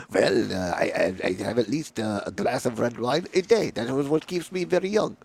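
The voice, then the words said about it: Deliberately bad put-on French accent. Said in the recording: “I have a terrible French accent.”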